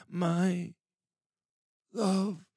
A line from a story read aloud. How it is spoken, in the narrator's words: Hathrin gasped